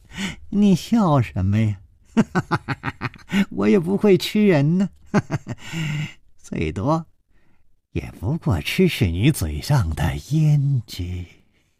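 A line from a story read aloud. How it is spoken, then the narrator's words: Grinning. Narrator (Chinese): 笑嘻嘻地说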